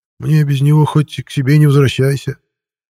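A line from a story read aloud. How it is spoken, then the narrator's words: Sad sigh. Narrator (Russian): печально вздохнул Михей Петрович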